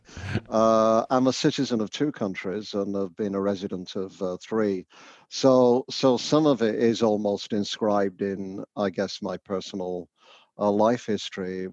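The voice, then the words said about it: Northern English accent. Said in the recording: “you'll guess from my accent, I'm not Canadian. I come from the north of England originally.”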